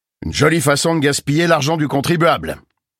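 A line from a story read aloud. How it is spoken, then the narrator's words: Growled. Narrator (French): grogna Reagan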